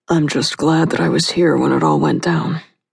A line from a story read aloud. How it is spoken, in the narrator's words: said in a low, gruff voice